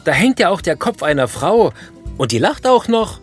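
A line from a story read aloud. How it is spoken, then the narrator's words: Visitor shouting. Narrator (German): schreit der Besucher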